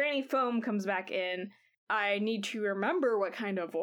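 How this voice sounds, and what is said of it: Usual voice. Nothing is said of it.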